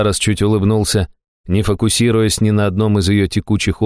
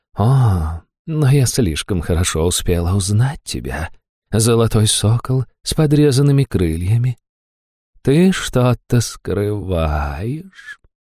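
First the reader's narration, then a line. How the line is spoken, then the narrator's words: Seductive purr. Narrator (Russian): промурлыкала суккуб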